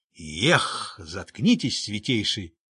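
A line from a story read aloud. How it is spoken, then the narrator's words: Growling. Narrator (Russian): рыкнул Шелдон Скакс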